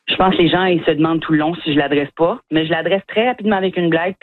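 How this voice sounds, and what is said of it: Acadian French accent. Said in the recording (French): “humoristes acadiens comme vous ... mon accent”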